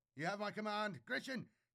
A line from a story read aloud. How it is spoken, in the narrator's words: yelled, running